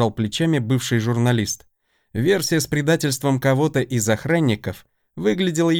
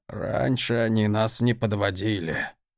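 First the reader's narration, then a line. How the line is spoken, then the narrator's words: Grumbling. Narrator (Russian): проворчал марграф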